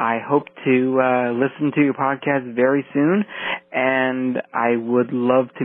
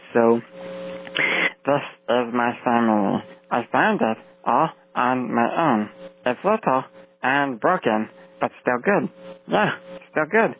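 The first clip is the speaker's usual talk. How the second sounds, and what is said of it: Imitating Stitch from Lilo and Stitch. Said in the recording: “I will do my Stitch voice. ... So that's my Stitch voice.”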